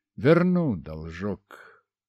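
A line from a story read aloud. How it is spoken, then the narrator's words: Muttering. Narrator (Russian): продолжал бормотать я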